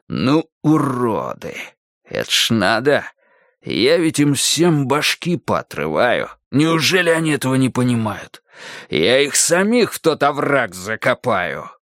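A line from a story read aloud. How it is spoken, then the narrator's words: Booming commanding bass. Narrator (Russian): уже не шептал, он уже гремел раскатистым начальственным басом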